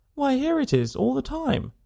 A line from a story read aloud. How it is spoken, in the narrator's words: he exclaimed indignantly